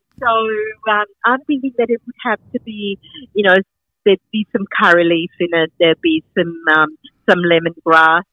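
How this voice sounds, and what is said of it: Slight Sri Lankan accent. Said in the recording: “I'm originally from Sri Lanka ... I thought I detected a little accent there.”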